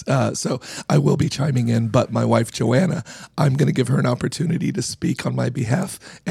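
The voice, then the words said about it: Hoarse, rough, nearly lost voice. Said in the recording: “my voice is just gone ... I sound like a garbage disposal”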